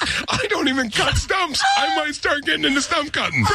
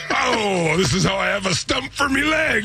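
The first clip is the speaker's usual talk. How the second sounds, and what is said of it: Put-on pirate voice. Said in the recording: “Pirate. You could always pirate.”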